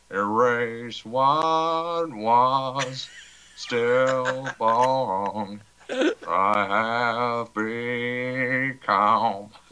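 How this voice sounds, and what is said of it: Imitates another person's singing voice. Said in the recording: “my Zach impression”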